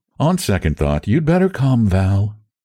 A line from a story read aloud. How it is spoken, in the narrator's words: she announced coolly